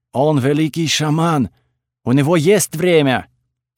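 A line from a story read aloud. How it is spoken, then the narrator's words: Loud announcement, wild woman. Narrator (Russian): громко объявила дикарка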